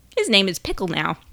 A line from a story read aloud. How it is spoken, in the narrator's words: Marigold had snorted